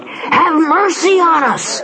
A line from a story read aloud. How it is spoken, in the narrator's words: they cried